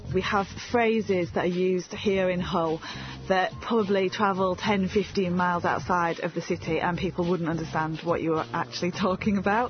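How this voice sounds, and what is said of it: Hull accent, long flat vowels. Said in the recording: “talk about the Hull accent ... very long, flat vowels ... it's definitely a very distinct accent ... You can identify a Hull accent from the vowel sounds.”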